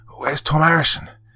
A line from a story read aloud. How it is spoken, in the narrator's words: gasped one of the men in the midst of his exertions